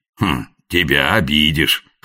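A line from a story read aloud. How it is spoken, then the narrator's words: Old man's grunt. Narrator (Russian): хмыкнул старец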